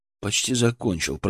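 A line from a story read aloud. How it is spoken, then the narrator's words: Silent inner mutter. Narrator (Russian): пробормотал мысленно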